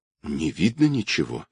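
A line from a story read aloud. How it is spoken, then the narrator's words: Trembling voice. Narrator (Russian): дрожащим голосом проговорила Настя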